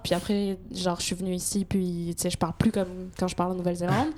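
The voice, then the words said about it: French accent, slight Québécois tinge. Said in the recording (French): “je parle avec un espèce de d'accent québécois très très léger. Vous, vous entendez sans aucun doute que je suis française.”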